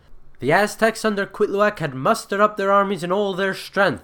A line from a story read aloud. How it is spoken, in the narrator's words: breathlessly reported